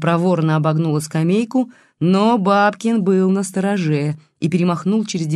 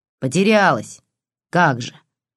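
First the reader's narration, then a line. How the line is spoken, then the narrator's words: Snorting old woman. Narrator (Russian): фыркнула старуха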